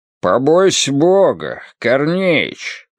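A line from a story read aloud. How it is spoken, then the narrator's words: Bass reply, mustached man. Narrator (Russian): басом отозвался усатый, похожий на старинного кочегара, а на самом деле известный в городе фотомастер папа Нессонов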